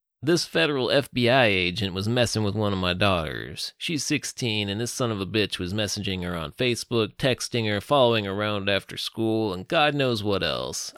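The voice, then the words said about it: Rich Texan accent. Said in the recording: “rich Texan accent”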